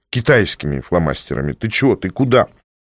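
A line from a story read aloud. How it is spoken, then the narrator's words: Sighing. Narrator (Russian): Котя вздохнул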